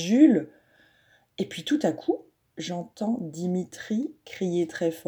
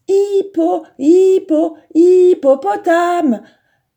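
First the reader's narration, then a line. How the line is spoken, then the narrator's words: Exclaiming with a smile. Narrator (French): s'écrie Samy en souriant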